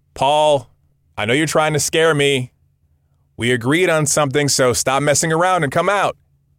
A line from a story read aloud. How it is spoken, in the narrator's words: shouted